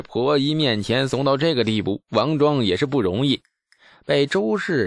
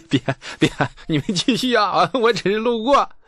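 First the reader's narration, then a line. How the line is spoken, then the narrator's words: Laughing, breathless. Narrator (Chinese): 李素笑得直不起腰，喘着粗气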